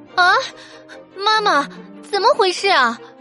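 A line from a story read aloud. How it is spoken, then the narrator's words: Loud cry. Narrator (Chinese): 果果大声叫了出来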